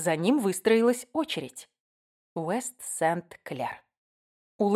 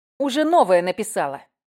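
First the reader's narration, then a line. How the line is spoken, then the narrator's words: Sharp. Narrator (Russian): Резко сказала я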